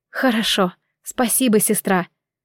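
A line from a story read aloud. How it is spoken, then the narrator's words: Sleepy mumble. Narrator (Russian): пробормотала в ответ, засыпая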